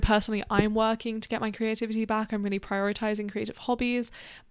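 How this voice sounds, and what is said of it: Mixed Australian, Canadian, British accent. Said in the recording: “I am like Aussie British ... my accent is messed up and I live in Canada, which hasn't done me any favors in terms of the accent ... reverting to some like weird mix of Aussie, Canadian, British”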